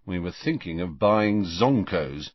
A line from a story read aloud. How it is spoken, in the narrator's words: said Fred gloomily